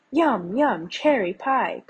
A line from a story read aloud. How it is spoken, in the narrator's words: cried the blue jays